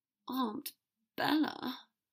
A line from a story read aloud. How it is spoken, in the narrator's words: Draco said very softly, hoping only Dumbledore would hear